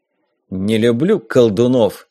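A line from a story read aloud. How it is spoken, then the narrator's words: Grumbling. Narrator (Russian): проворчал Страйдер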